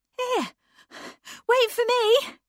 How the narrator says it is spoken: cried Anne

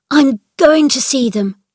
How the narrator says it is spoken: cried Colin

